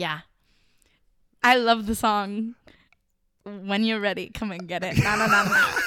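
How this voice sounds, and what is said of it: Usual voice. Nothing is said of it.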